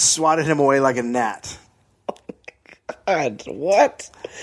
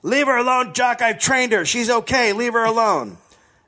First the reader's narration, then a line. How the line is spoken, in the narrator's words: Tiny Brave Arnie shouting